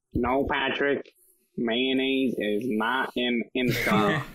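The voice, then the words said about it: Imitates Squidward cartoon voice. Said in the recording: “my Squidward impersonation”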